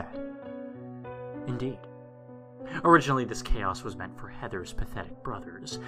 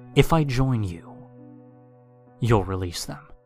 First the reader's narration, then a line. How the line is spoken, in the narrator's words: I asked Ross